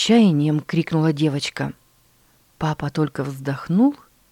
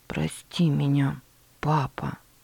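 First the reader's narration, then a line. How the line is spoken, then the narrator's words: Barely audible. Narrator (Russian): чуть слышно произнесла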